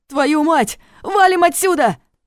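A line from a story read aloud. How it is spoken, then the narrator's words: Young man shouting. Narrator (Russian): крикнул парень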